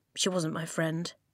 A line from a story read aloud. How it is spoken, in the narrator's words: he muttered